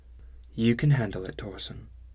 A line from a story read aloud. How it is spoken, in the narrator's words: said softly